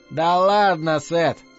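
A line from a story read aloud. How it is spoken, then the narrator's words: Laughing. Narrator (Russian): засмеялся мистер Кэссиди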